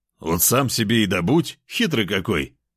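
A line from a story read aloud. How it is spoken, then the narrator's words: Mocking snort. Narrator (Russian): хмыкнул я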